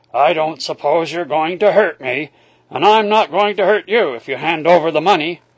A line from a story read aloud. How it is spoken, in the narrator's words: he said gruffly